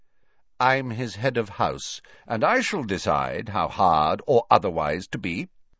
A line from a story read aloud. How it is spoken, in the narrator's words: said Snape curtly